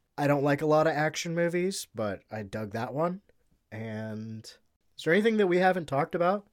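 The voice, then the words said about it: Rough voice, recovering from illness. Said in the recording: “You can probably tell in my voice. I sound a little bit like shit. I know I'm getting over being sick.”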